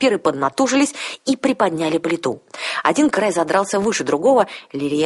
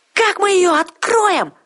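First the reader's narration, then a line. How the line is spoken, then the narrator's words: Shouting. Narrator (Russian): закричала Арсана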